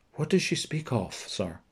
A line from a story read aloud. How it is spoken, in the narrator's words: The prince asked quietly